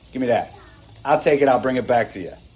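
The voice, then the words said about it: Thick New Jersey accent. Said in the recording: “He had a thick New Jersey accent.”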